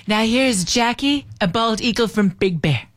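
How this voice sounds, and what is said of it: Woman imitates another person's voice. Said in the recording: “my terrible Trump impersonation, but I am a girl ... it's not bad for a female Trump impersonation”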